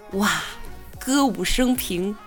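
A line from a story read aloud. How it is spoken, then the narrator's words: Young man exclaiming. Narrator (Chinese): 年轻人感叹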